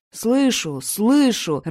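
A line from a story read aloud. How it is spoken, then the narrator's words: Irritated reply. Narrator (Russian): раздраженно отвечал ему Асвард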